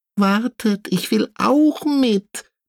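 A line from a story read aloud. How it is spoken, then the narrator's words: Small squeaky voice. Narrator (German): piepst Tienchen, die kleine Haselmaus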